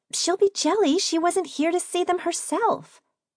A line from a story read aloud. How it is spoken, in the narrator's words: Katrine chirped